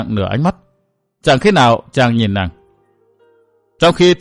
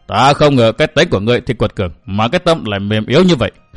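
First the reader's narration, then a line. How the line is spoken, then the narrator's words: Hoarse laugh after silence. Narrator (Vietnamese): Yến Nam Thiên trầm lặng giây lát, đoạn bật cười khăn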